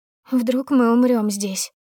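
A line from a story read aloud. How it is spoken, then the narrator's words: Sad whimpering. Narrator (Russian): заскулила печальная толстушка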